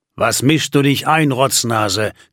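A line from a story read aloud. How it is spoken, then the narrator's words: Growling. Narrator (German): knurrte Simon ihn an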